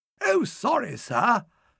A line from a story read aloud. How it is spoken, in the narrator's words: cried this babe and suckling